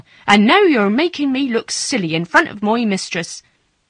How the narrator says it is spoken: cried Martha

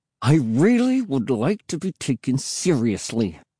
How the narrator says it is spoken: I said through clenched teeth

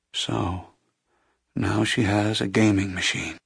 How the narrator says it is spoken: the blind man murmured

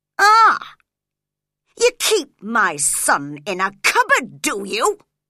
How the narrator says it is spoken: cried angrily

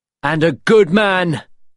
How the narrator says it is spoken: Will shouted

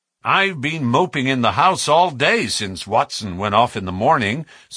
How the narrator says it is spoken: said the baronet

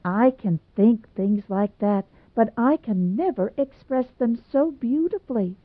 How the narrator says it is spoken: moaned Hazel in an anguish of rapture

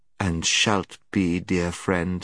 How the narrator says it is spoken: said the witch in a soothing voice, as if she were humouring a child

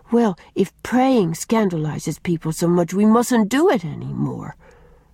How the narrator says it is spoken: sighed Una

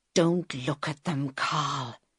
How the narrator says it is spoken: he whispered

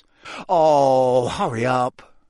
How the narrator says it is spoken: Ron moaned

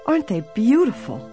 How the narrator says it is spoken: Emily exclaimed

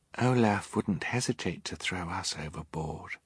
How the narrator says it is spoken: Violet said, so quietly her siblings could scarcely hear her

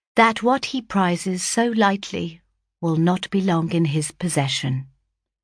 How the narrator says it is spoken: replied I calmly

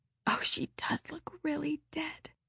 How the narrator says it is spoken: whispered Ruby Gillis nervously

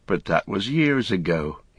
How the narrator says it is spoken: he sighed

